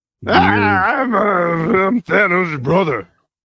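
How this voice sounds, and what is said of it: Imitates another person's voice. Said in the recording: “my best Bobcat impression. I got nothing.”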